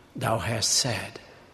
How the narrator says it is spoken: replied calmly

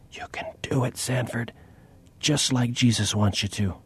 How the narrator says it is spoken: Nadine whispered

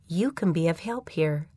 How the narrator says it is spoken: the Spirit whispered

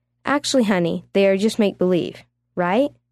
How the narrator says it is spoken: Uma asked

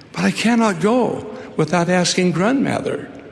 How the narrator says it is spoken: faltered Rupert

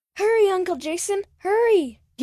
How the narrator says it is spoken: He shouted

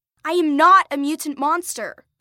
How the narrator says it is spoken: Lacey shouted back

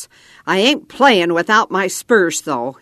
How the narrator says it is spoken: he growled

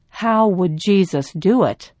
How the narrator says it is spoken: I found myself asking him in a kind, unruffled voice

